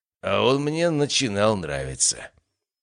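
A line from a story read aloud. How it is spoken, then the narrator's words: Hoarse laughter. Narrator (Russian): раздался хриплый смех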